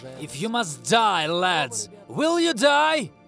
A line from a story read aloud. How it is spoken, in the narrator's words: shouted Kornilov